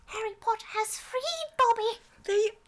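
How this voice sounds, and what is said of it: Imitates Dobby the house-elf voice. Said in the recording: “Dobby... That's pretty good... Oh, that's a good one”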